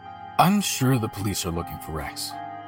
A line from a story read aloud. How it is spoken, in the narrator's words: my father said